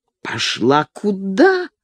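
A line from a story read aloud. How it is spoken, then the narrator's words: Hiss. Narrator (Russian): прошипел Макиавелли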